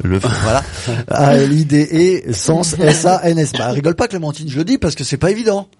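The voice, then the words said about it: Speaks French with a noticeable accent. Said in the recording (French): “avec mon accent, les deux mots se ressemblent.”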